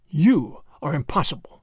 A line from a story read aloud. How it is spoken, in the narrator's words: he muttered